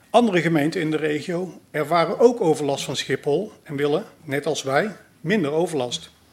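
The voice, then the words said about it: Brabant Dutch regional accent. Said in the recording (Dutch): “Aan mijn accent hoort u waarschijnlijk dat mijn roots in Brabant liggen.”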